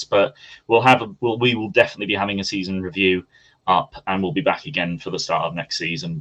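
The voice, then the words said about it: Manchester accent. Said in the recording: “lives in Manchester, based in Manchester. You probably gathered that from the accent.”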